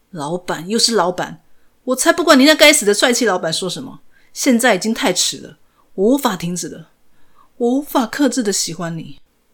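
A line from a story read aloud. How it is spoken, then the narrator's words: Sudden angry roar. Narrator (Chinese): 张根秀突然愤怒的大吼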